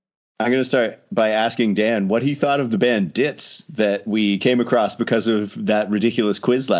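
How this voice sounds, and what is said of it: Usual voice. Nothing is said of it.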